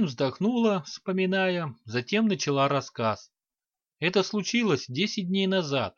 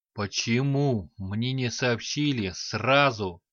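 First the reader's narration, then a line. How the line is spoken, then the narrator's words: Furious hiss. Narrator (Russian): разъяренно прошипел Ланиг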